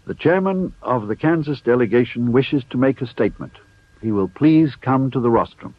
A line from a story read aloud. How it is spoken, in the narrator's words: cried out